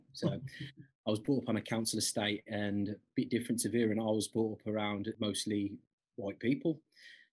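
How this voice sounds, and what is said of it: Birmingham English accent. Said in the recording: “I'm from Birmingham, as you can probably tell from my accent.”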